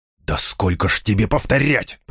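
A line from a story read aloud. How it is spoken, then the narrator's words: Hissed. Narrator (Russian): прошипел он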